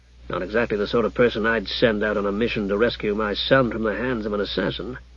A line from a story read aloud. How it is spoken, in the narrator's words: muttered Hugh